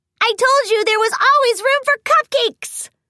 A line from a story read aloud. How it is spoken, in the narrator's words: squealed Pinkie Pie